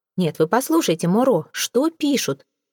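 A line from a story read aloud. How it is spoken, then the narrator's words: Exclamation. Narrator (Russian): воскликнул он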